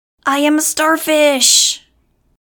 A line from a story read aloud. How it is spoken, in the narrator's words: shrieking